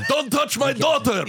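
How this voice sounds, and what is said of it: Angry Greek accent. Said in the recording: “a Greek accent? ... Diner owner? ... the angriest version of a Greek accent”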